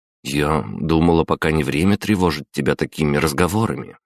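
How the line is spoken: Uncertain. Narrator (Russian): неуверенно проговорила она

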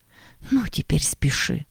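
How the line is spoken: Whispered. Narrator (Russian): прошептала Агата

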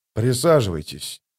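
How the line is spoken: Calm quiet voice. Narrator (Russian): сказал он спокойным и тихим голосом

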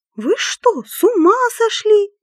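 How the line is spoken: Shouting. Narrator (Russian): закричала Четверухина

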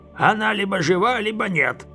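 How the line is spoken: Rough mutter, mage. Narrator (Russian): грубо буркнул маг

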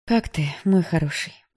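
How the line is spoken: Dull, lifeless voice. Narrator (Russian): потухшим голосом спросила она

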